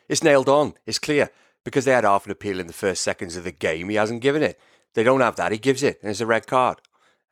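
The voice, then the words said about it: Welsh accent. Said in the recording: “That's a great Welsh accent, by the way.”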